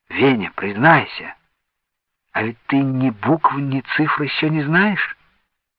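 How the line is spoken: Whispered question. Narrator (Russian): Она шепотом спросила

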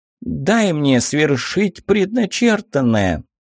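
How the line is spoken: Squeaky voice. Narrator (Russian): отозвалась своим писклявым голоском змея

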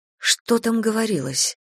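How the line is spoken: Timid, hesitant question. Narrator (Russian): робко уточняю, хотя я не уверена, хочу ли знать ответ

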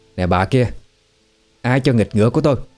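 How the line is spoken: Irritated shout. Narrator (Vietnamese): Mụ Phùng sẵn đang trong cơn bực liền quát

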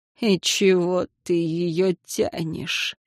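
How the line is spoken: Scoffing. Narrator (Russian): хмыкнула Ванесса

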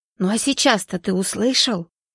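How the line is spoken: Whispered question. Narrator (Russian): шепотом спросил Степаныч

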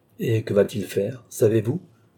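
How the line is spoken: Plain. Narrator (French): demanda Richelieu

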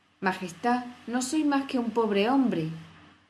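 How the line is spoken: Hatter's trembling voice. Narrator (Spanish): comenzó a decir el sombrerero con voz temblorosa

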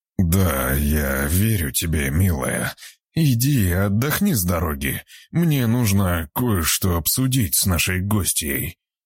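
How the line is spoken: Strained, forced out. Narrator (Russian): выдавил из себя зверь

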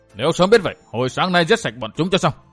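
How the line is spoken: Resentful, angry. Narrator (Vietnamese): Thương Thiếu Lão Hồng tức tối hậm hực nói

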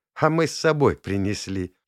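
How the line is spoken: Giggling. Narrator (Russian): хихикнули в ответ

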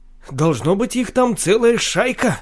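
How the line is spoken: Annoyed exclamation. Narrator (Russian): С досадой воскликнул Октав

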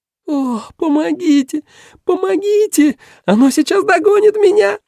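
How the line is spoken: Girl's voice shrieking. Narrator (Russian): визжал девичий голос

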